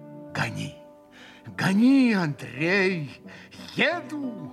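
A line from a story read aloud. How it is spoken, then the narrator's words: Feverish exclamation. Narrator (Russian): воскликнул как бы в горячке Митя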